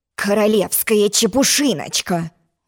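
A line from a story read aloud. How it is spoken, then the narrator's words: Angry grumble, king. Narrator (Russian): злобно проворчал король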